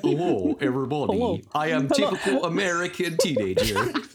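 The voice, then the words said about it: Put-on accent. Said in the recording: “is easier to say in that accent.”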